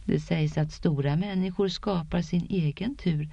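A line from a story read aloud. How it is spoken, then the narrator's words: Low voice. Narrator (Swedish): sa Chilen med låg röst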